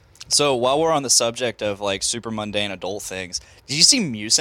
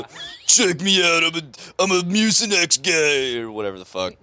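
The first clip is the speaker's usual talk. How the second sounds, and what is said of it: Impression of a commercial character voice. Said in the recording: “best impression ... It was like Joe Pesci Sup. And Danny DeVito like fusion danced and became one thing”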